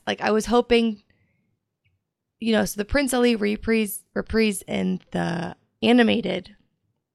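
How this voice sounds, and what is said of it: Strained, fading voice. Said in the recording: “My voice is dying on me here. I'm sorry.”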